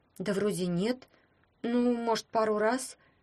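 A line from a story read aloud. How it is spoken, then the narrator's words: Confused admission. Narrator (Russian): растерянно признала Таня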